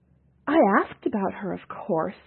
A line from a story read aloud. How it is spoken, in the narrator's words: she exclaimed, trying to redeem herself